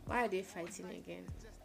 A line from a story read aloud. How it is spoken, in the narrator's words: murmured